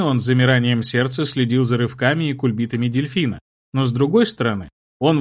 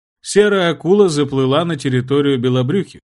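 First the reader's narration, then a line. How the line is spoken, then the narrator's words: Answered after laughing. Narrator (Russian): отсмеявшись, ответил герцог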